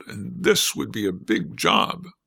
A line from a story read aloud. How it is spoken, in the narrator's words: they grumbled